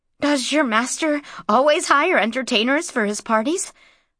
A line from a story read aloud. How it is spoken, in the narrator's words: Mara asked him breathlessly